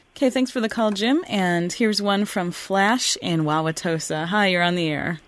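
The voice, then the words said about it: Clear, polished radio voice. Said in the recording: “You have a lovely radio voice, A-plus radio voice... It's clear as a bell.”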